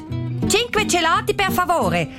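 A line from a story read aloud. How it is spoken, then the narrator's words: Said loudly. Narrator (German): sagt sie mit lauter Stimme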